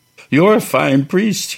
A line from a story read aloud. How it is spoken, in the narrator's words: he wailed up to him